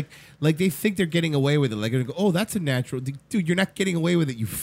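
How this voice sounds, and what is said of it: Usual voice. Nothing is said of it.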